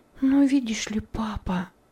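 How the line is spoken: Whisper. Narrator (Russian): сказала она шепотом

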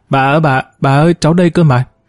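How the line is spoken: Child's shrill scream. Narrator (Vietnamese): bé Ngọc hét toáng lên

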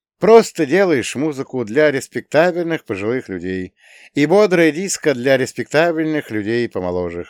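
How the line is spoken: Chuckling laugh. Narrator (Russian): хохотнул

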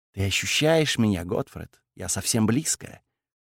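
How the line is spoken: Whisper. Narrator (Russian): прошептала

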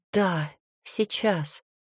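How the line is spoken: Trembling voice. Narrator (Russian): ответила дрожащим голосом

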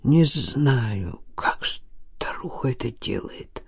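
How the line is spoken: Whispered. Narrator (Russian): шепотом добавил Илья

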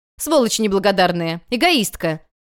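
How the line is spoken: Shouting mother. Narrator (Russian): крикнула мама

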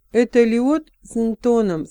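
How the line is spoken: Plain. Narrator (Russian): сказал Пьемур

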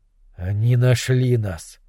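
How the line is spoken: Breathless exhale. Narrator (Russian): выдохнул Немрод

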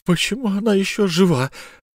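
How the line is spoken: Forced out words. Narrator (Russian): выдавила, наконец, Софья

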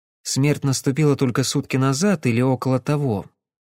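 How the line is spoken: Quiet, secretive speech. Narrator (Russian): Тихо, чтобы не услышала Софи, проговорила она

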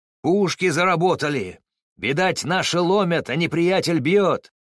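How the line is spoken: Shouting. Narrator (Russian): крикнувшего эти слова Уховского

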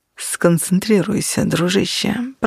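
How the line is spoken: Muttering. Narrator (Russian): пробормотал Нигер

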